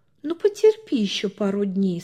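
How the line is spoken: Gentle. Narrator (Russian): сказала она ласково

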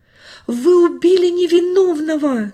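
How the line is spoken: Shouting. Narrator (Russian): кричал

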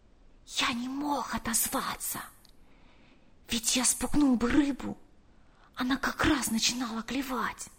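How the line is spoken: Whispered. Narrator (Russian): прошептал

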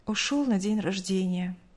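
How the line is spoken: Curt, sighing. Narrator (Russian): коротко ответила мать, вздохнув

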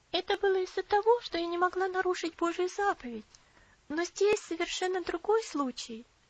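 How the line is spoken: Gentle reply. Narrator (Russian): мягко ответила Элси

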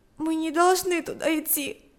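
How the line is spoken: Sobbing. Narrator (Russian): сказала она, всхлипнув

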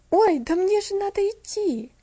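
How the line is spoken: Frightened exclamation. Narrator (Russian): воскликнула Мирианна испуганно

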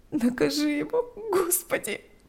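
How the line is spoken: Sobbing. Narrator (Russian): рыдала она

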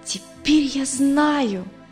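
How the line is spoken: Joyful voice. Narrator (Russian): произнесла Катя радостным голосом

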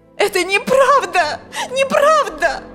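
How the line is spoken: Screaming again, female. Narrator (Russian): Снова закричала она

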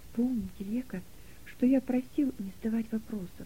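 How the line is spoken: Whisper in ear. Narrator (Russian): прошептал он ей на ухо

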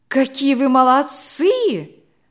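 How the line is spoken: Exclaimed. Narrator (Russian): воскликнула Наташа

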